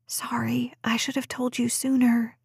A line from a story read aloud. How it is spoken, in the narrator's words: she whispered